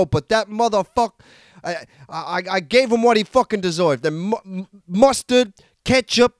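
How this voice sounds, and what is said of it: Inconsistent put-on accent, deep then light. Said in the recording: “your accent is actually all over the place. You started off deep, got very light”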